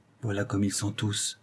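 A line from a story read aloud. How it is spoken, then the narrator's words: Murmured. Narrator (French): murmura-t-elle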